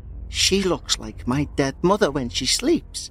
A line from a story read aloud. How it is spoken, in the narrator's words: he murmured